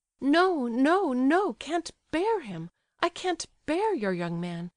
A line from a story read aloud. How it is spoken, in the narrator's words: cried Aglaya